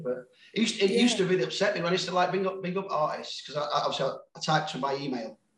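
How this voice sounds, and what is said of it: Sheffield English accent. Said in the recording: “people say I sound like I'm from Manchester ... I think I'm very Sheffield ... my Sheffield accent ... the Sheffield accent quite endearing”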